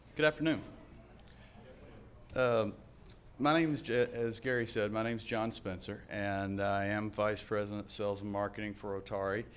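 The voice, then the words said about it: American Southern accent. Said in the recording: “I am from the South. And so for those of you who have a problem with the accent”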